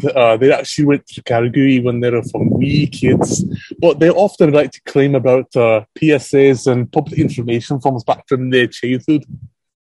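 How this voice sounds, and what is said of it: Put-on Scottish accent. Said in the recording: “that was a terrible... No, that was quite good... it's better Scottish accent that freaking than Mel Gibson did in Braveheart”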